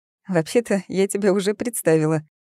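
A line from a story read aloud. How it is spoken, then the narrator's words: Giggling. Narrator (Russian): хихикая, сказала Алиса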